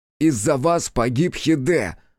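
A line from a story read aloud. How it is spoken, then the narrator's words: Sudden shout. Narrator (Russian): закричал вдруг Хитсу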